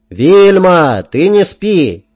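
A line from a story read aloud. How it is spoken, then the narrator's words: Loud yell. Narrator (Russian): неоригинально, но громко заорал я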